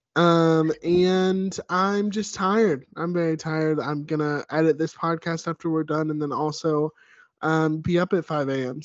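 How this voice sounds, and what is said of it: Sick, tired-sounding voice. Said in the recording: “I've been a little sicky Vicky, as you can probably hear in my voice.”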